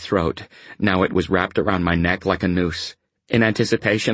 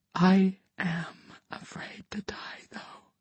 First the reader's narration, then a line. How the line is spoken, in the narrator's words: I whispered to myself